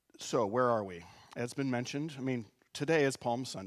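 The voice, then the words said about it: Sick, abnormal-sounding voice. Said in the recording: “apologize for my voice. I don't sound normal. I am sick”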